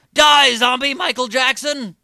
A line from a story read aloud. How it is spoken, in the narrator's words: Seth Rogen emerged from the house shouting